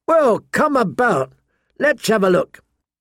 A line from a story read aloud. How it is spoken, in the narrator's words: Pip called out